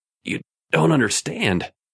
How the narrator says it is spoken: Raymond gasped

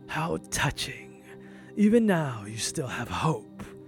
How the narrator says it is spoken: chuckled

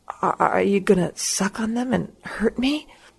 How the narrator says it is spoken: She laughed

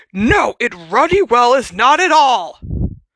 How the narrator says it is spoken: bellowed Uncle Vernon

